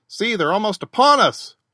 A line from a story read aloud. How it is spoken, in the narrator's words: shouted Pelton